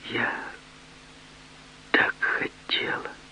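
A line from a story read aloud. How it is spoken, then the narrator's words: Whisper. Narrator (Russian): Она прошептала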